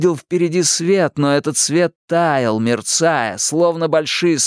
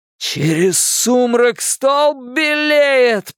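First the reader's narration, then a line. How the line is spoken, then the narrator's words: Shouting, nearly fainting. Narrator (Russian): прокричал Билл, едва не теряя сознание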